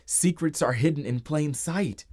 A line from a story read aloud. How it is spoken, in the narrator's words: Max shouted